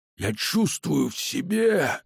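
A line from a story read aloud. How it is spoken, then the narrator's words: Vampire's eerie smiling hiss. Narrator (Russian): зашипел вампир, жутко улыбаясь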